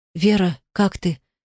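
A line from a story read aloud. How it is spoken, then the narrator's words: Hoarse sleepy voice. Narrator (Russian): Спросил он меня хриплым сосна голосом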